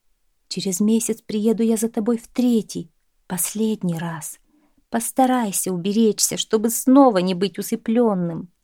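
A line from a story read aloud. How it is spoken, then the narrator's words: Whispered in ear. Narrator (Russian): Прошептала она на ухо спящему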